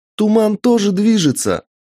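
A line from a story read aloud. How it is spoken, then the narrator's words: Shout. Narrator (Russian): крикнула Алиса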